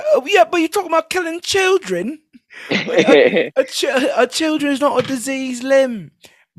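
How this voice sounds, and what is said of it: Put-on British accent. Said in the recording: “This is my impression of Stephen Grant's impression of a British person”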